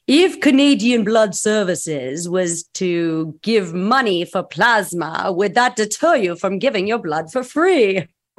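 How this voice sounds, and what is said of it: Dracula voice. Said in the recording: “in my best Dracula voice ... I have no idea if that sounded like Dracula”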